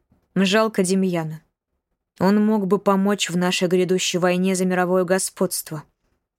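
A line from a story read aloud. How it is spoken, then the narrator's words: Cold. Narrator (Russian): холодно сказал Казимир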